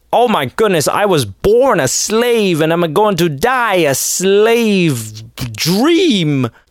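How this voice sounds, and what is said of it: Unidentified put-on accent. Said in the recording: “I don't even know what accent I'm doing.”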